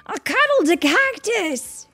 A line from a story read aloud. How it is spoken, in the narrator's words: he yells